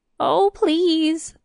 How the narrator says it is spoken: the king suddenly whined

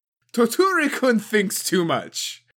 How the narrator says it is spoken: Arasou laughed

